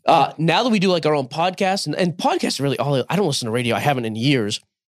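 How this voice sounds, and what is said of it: Hoarse, fading voice. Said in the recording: “I'm losing my voice again”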